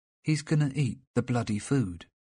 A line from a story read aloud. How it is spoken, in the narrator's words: said Lucas, his voice still calm